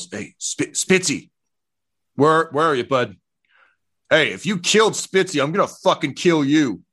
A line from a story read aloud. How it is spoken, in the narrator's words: Elliot yells